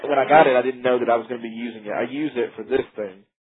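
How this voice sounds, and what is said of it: Southern American accent. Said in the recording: “I thought it might be somewhere in the South ... I'm just judging by your accent”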